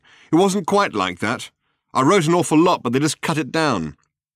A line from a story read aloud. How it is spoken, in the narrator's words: said Ford, having to shout now above the din